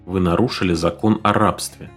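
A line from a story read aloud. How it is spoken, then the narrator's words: Quiet, faintly threatening. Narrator (Russian): тихо и с ноткой угрозы ответил Симс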